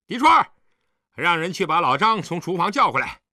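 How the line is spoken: Loud call. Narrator (Chinese): 景辉高声叫道

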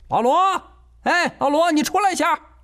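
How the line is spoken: Sudden shout outdoors. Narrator (Chinese): 郑阳娇突然在院子里喊

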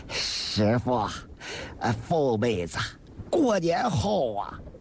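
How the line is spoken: Simple-hearted chuckle. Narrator (Chinese): 史大学也憨笑着说

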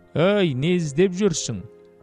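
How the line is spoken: Tired, breathless, relieved shout. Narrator (Kazakh): Әлгі адам айғайын еститін құлақ табылғанына қуанып кетті білем, бір шаршаңқы үнмен ентіге дауыстады

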